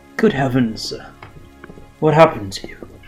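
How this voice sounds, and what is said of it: Alfred the butler character voice. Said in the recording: “my Alfred impression”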